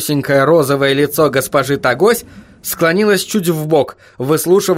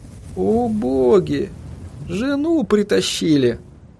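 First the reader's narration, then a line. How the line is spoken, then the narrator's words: Sighing. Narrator (Russian): вздохнул он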